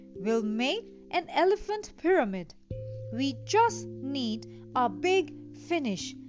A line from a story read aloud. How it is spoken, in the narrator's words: the man said